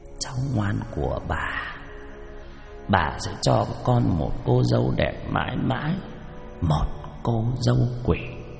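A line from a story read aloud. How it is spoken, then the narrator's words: Muttering. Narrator (Vietnamese): Cụ Cẩm lẩm bẩm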